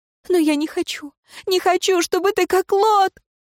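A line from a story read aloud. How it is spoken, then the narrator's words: Sobbing. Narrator (Russian): узница разрыдалась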